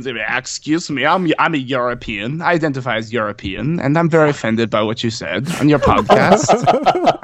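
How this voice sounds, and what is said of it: Put-on generic European accent. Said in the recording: “That was my pan-Euro accent.”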